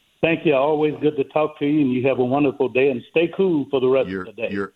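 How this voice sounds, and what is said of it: Speaks with a noticeable accent. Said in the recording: “Your accent just gets better every time you call.”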